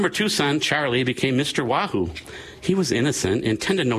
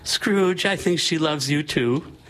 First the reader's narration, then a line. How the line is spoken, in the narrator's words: Sophie May started giggling and said